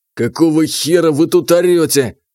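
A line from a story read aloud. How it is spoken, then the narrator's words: Angry question. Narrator (Russian): сердито спросил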